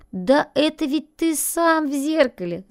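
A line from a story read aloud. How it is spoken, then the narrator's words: Laughing. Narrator (Russian): засмеялся Барбос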